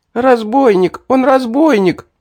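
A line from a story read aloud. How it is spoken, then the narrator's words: Boy speaking while sobbing. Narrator (Russian): рыдая проговорил мальчишка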